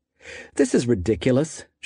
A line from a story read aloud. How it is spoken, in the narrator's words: she said